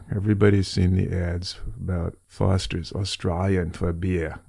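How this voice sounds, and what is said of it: Poorly done Australian accent. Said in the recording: “I've just mangled that accent”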